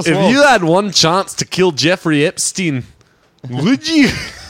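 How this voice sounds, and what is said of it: Put-on Scottish accent. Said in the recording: “Is that a good Scottish accent?”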